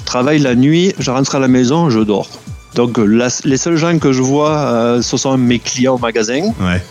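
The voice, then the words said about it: Sing-song Béziers French accent. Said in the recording (French): “tu as gardé cet accent de Béziers, cet accent chantant”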